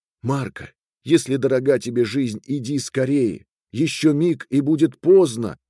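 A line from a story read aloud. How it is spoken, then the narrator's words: Kind exclamation. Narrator (Russian): воскликнула добрая Урма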